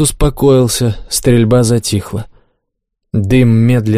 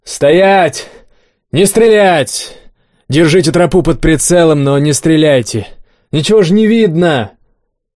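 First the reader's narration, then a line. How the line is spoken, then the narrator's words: Booming shout. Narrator (Russian): Кабан зычно заорал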